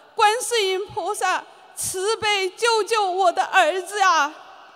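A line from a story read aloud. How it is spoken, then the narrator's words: Weeping, crying out. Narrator (Chinese): 我泪流满面，哭喊着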